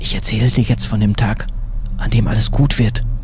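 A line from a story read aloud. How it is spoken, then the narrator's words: Whisper. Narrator (German): flüsterte Walter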